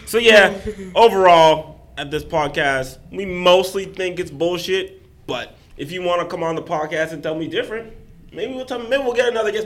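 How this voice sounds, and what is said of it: Hoarse, strained voice. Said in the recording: “God damn, I'm losing my voice. ... I did too much yelling last night”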